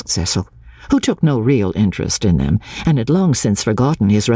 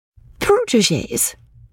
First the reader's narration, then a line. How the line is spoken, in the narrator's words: she exclaimed with some warmth